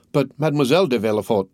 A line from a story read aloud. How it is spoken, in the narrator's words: stammered the nurse